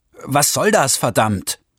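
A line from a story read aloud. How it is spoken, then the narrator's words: Shouted. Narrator (German): rief Wilho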